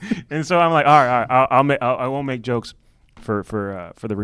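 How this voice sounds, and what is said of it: Usual voice. Nothing is said of it.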